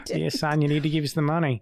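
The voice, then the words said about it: Nasal put-on Australian accent. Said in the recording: “me actually doing an Australian accent there ... It comes from the back of the throat. I'm doing quite a nasally Australian accent, so people in Australia are shaking their heads”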